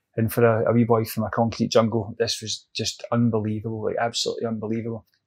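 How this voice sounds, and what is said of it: British accent. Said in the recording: “I just had a British accent.”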